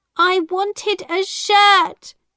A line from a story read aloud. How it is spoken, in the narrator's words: James cried